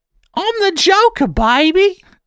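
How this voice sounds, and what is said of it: Joker character voice. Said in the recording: “doing it in your Joker voice”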